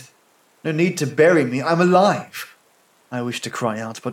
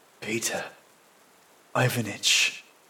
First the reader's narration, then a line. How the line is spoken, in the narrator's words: I whisper